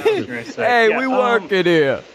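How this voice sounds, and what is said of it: Poor put-on New York accent. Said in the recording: “That was a terrible New York accent.”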